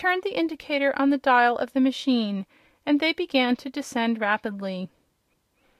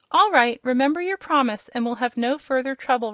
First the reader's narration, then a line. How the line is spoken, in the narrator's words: remarked Rob, who had hard work to keep from laughing at the man's abject terror